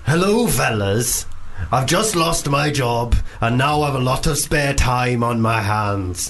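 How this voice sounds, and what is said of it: Poor put-on Welsh accent. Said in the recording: “I'm bad at Welsh... Genuinely dreadful”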